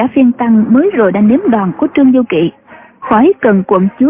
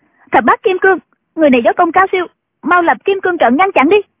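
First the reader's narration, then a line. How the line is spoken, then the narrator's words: Shout. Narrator (Vietnamese): Triệu Mẫn quát lên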